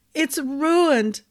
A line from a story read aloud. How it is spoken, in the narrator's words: she finally sobbed into Ambrose's shoulder